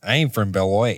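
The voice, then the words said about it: Put-on Wisconsin accent. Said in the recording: “snap into a Wisconsin accent”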